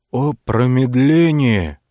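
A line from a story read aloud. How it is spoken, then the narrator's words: Exclamation. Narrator (Russian): воскликнул отшельник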